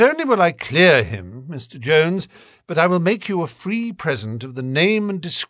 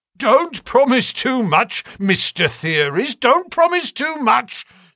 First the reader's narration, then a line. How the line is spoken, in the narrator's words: snapped the detective